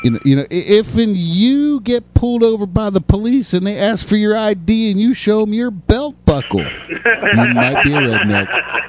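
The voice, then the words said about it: Put-on Southern redneck accent. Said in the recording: “That was a good impression. ... That was very good. ... I can talk like from down there, y'all. I spent some time in the South”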